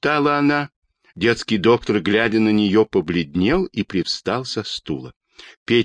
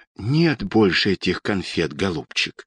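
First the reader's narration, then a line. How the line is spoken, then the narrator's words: Soft quiet voice. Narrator (Russian): тихо сказала Анна Петровна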